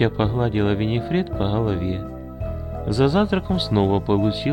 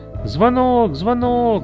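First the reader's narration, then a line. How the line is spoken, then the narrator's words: Shouting. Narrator (Russian): закричала Эти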